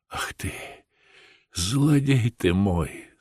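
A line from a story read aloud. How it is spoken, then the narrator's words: Tearful reply. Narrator (Russian): сквозь слезы отвечала Катерина Львовна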